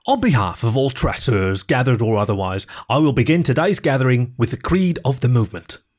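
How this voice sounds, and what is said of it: London accent with East Coast tinge. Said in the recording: “His London accent was tinged with that of the East Coast after years spent in intersection, but was no less coherent.”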